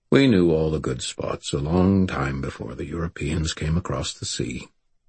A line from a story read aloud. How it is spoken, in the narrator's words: River Shoulders said calmly